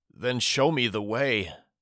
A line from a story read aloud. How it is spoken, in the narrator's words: Daddy whimpered